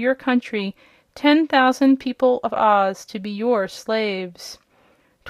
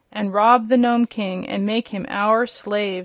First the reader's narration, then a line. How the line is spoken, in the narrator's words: said another